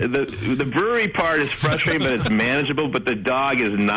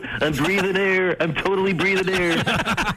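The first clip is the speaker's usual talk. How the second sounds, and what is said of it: Dopey dog character voice. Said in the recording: “this is my impersonation of Snickers ... a little, you know, on the dopey side”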